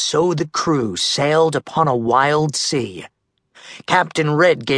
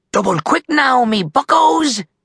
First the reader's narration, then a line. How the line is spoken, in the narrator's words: cried Red